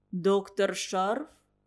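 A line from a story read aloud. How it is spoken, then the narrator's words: Priest, overly calm question. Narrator (Russian): переспросил священник, как мне показалось, чересчур спокойно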